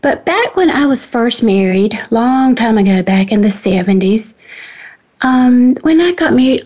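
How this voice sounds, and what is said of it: North Carolina Southern accent. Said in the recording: “I'm a North Carolina girl, transplanted to Washington... the accent that doesn't quite match the state”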